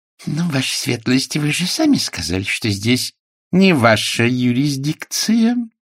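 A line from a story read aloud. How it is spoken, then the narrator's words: Soft hiss. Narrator (Russian): нежно прошипела полковница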